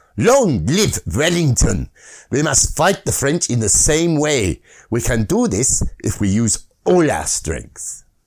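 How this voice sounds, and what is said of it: Put-on German accent. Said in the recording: “I notice his accent seems to change. ... It's gone from Manfred von Richthofen.”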